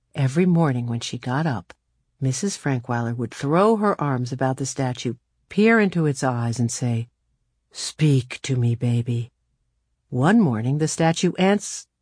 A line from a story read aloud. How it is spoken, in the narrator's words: He murmured